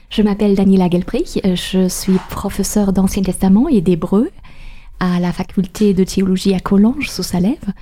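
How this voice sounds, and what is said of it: Slight German accent in French. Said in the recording (French): “Je viens d'Allemagne, c'est pourquoi j'ai un petit accent.”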